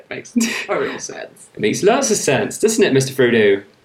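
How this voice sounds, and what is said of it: Put-on Somerset English accent. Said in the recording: “my random Somerset accent ... this accent is not from New Zealand ... it's actually called Somerset ... That's what everyone around there sounds like. They sound like this.”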